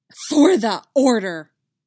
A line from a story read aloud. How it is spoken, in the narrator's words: the Dark Woman spat